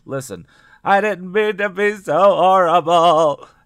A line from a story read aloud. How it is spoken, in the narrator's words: Hallie wailed